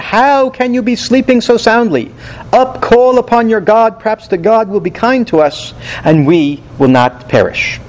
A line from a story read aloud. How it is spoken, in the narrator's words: The captain cried out